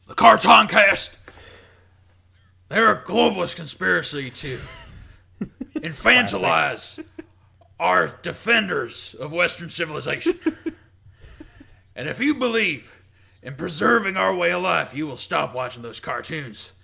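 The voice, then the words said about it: Imitates another person's voice. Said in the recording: “Can you do an impression of Alex Jones”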